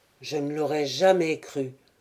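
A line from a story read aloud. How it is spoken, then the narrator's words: Lieutenant grumbling. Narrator (French): grommela le lieutenant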